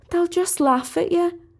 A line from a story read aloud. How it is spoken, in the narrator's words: pleaded Sally